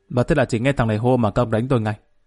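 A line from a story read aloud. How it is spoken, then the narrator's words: Raised voice. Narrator (Vietnamese): Lâm cao giọng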